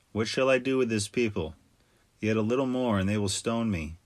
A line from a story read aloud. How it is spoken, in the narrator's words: Moses cried to the Lord, saying